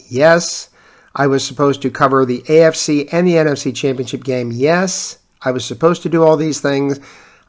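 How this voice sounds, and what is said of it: Sick, coughing, rough voice. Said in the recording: “You can probably tell from my voice that I'm still battling this stupid cough ... you get to hear me again with my dulcet tones”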